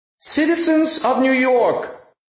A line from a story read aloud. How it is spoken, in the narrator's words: she cried